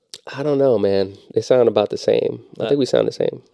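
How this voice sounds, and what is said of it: Low, sultry, sexy-sounding voice. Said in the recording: “That was a little bit of a sexy voice right there.”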